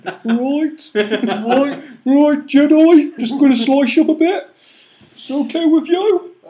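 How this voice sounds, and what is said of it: Put-on Brummy accent. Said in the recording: “It's got a fucking Brummy accent.”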